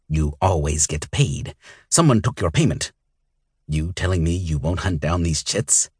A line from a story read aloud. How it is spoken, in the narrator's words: Roke grumbled